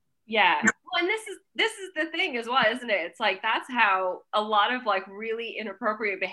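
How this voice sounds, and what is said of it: Usual voice. Nothing is said of it.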